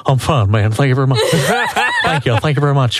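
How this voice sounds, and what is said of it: Imitates another person's voice. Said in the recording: “I have perfected my Elvis impersonation.”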